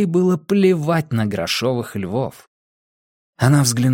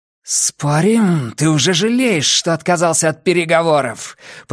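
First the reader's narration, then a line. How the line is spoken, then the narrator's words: Growl. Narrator (Russian): прорычала Нина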